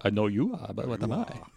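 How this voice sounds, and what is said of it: Dracula-like accent. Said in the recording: “With the accent ... It was very Dracula.”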